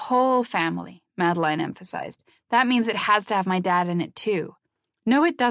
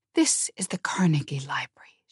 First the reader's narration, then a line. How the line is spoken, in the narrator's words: she whispered angrily